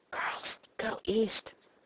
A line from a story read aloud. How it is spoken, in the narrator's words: let me whisper